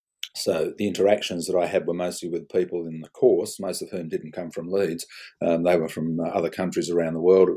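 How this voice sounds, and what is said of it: Broad Australian accent, slight English traces. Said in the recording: “My accent is basically fairly broad Australian with a few smatterings of my English background left behind.”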